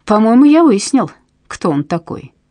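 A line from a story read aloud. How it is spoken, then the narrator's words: Plain. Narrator (Russian): сказал он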